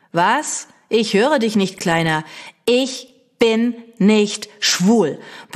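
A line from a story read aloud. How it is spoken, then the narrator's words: Loud bellow. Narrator (German): brülle ich laut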